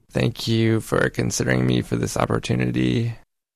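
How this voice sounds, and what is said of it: Creaky vocal fry voice. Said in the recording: “here's that same sentence with vocal fry ... There's kind of that creak or growl to the speaker's voice”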